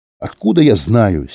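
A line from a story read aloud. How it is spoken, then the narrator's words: Angry. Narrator (Russian): сердито сказал Юра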